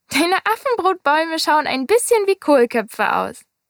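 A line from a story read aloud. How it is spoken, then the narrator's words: Laughing. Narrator (German): Der kleine Prinz sagte lachend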